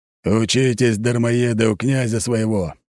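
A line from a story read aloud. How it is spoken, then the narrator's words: Cheerful growl. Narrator (Russian): весело рыкнул Аршавин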